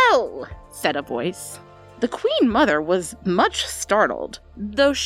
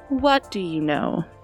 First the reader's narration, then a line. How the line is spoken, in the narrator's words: asked the queen mother gently